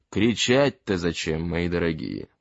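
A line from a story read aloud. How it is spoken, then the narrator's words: Calm. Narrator (Russian): спокойно сказал шериф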